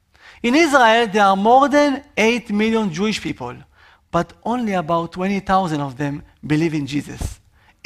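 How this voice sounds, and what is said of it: Israeli accent. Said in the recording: “Can you hear my accent? Yes. That's right. I am from Israel”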